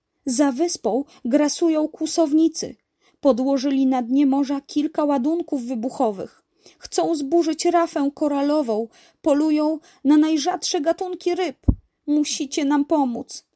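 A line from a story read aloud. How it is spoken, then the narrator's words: Dolphin calling out. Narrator (Polish): zawołał delfin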